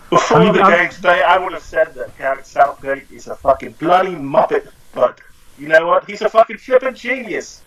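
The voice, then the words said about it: Put-on English accent. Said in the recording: “great accent, by the way. I'm really impressed by that. ... that's my poor English accent”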